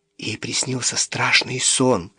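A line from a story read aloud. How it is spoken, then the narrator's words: Whisper. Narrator (Russian): прошептала Сид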